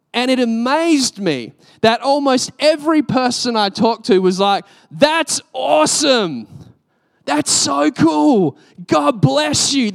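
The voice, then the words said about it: Australian accent. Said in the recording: “everyone would notice that I'm Australian ... they kind of love the accent”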